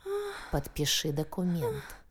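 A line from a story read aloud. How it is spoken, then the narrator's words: Growl. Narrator (Russian): зарычал его зверь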